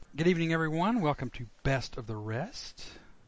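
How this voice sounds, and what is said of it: Silky smooth radio announcer voice. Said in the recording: “your silky smooth radio voice ... Super smooth.”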